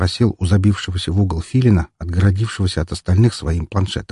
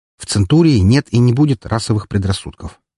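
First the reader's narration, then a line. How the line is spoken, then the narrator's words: Curt, harsh tone. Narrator (Russian): отрезал жестким тоном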